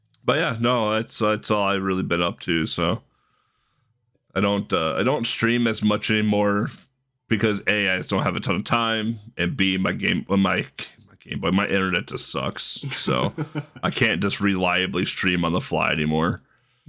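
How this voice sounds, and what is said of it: Strained, worn-out voice. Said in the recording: “why I'm clearing my throat or my voice sounds weird, it's because I did 5 hours of commentary yesterday ... so my voice hasn't fully recovered yet”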